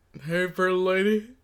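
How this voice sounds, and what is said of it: Elvis-style impression. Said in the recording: “do an Elvis impression? ... That's really good. ... That's actually way better than I thought it was going to be. ... I thought that was a really good Johnny Bravo impression.”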